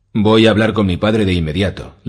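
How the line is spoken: Imperious voice. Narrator (Spanish): le dijo a Boros con su voz más imperiosa

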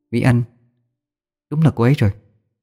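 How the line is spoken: Muttering. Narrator (Vietnamese): Tôi lẩm bẩm trong miệng

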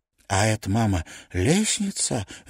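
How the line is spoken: Barely audible babble. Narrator (Russian): лепечет он чуть слышно

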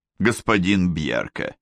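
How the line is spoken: Deliberately dry, formal. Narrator (Russian): нарочито сухо обратился Гуннар странно

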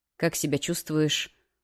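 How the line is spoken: Quiet question. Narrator (Russian): тихо спросил знакомый голос

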